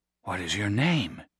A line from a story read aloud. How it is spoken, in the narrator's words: Nate asked, his voice a whisper